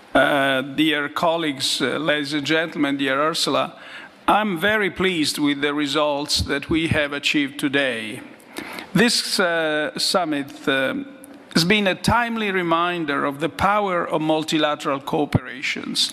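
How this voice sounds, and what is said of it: Good English with noticeable accent. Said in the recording (Dutch): “met goed Engels ... En het accent is er dan misschien wat sterker dan... Maar ik denk dat zijn Engels eh, hartstikke goed is.”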